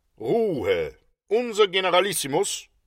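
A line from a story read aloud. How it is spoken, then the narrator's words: Calling out. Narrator (German): rief er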